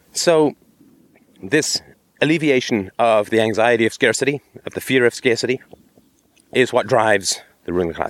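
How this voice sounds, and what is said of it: Rough, under-the-weather voice. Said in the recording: “sorry about my voice. I'm just getting over a cold”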